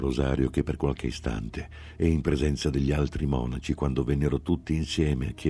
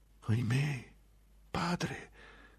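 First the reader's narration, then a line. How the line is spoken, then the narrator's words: Sad murmur. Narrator (Italian): mormorò tristemente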